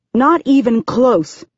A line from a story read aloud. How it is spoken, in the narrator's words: she says angrily